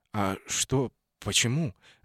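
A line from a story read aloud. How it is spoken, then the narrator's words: Confused, hesitant. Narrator (Russian): растерянно начал я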